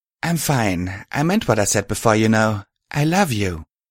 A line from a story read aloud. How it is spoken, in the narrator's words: replied, smiling brightly